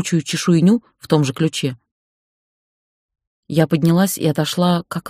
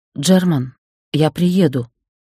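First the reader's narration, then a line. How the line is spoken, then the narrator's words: Surprisingly calm voice, woman. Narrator (Russian): сказала я и поразилась тому, как спокойно звучит мой голос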